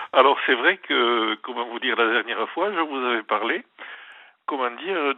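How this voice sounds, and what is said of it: Southwestern French accent. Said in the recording (French): “Pourquoi vous me reconnaissez à mon accent? ... C'est l'accent du Sud-Ouest.”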